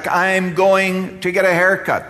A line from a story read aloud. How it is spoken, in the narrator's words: The person shouted back